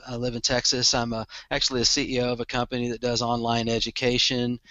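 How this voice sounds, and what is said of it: Slight Texan accent. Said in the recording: “if I have a little bit of an accent, I own it. it comes with being a Texan.”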